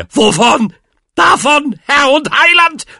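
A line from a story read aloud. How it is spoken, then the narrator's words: Shouted. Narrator (German): schrie Onkel Depp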